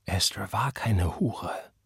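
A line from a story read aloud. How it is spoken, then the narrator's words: Quiet. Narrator (German): sagte leise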